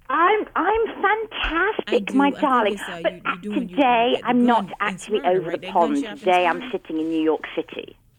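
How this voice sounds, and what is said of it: London English accent. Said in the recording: “What's the accent? ... I'm from London. Good old-fashioned London, England.”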